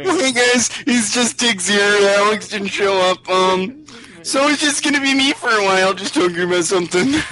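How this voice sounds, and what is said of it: Nasal imitation of another person's voice. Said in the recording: “Do I sound nasal like that? ... this is my Tiggs impression.”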